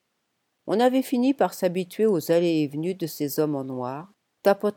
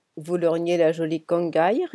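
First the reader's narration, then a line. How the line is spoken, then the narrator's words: Snickering from behind. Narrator (French): ricana Noskis dans son dos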